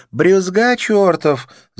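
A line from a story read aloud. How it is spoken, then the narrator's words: Laughing. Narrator (Russian): засмеялась она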